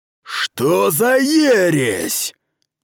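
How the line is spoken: Roared. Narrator (Russian): проревел Сахал

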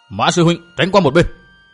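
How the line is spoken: Loud shout. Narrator (Vietnamese): thét to một tiếng

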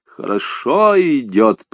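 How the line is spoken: Deep guttural grumble. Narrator (Russian): пробурчал он утробным басом, даже не сомкнув обвисшие губы

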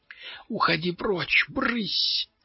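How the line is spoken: Desperate whisper. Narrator (Russian): прошептал он в отчаянии

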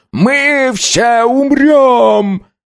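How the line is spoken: Shouting. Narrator (Russian): заорал

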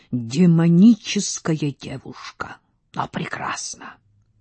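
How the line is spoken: Whisper. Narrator (Russian): князь Занецкий шептал

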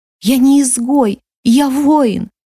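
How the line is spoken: Bursting into sobs. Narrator (Russian): разрыдалась Хелейна

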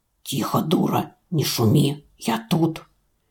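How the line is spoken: Ominous whisper. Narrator (Russian): зловещий шепот

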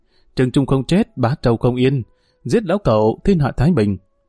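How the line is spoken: Hissing, ceaseless cries. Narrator (Vietnamese): không ngừng vang lên tiếng rít

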